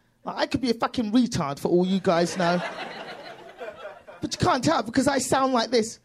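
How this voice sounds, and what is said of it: British accent. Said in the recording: “this accent ... because you have a British accent ... this accent”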